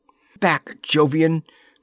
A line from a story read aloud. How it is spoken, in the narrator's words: cried Laura in ringing tones